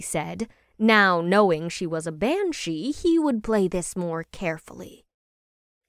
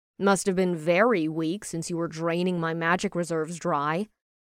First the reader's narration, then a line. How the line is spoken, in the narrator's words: Ash replied in a deadpan tone